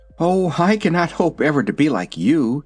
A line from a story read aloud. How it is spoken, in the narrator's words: sighed the Sawhorse